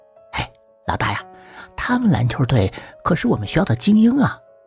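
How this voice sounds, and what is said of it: Whispered aside. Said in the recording (Chinese): “在我耳边小声说”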